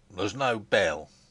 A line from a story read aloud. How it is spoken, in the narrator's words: said Bauer sullenly